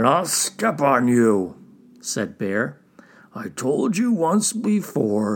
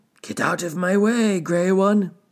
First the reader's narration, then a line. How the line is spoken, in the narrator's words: he shouted